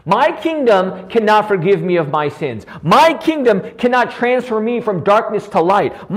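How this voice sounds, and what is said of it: Yelling preacher. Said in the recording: “I'm yelling... I really don't know why I'm yelling”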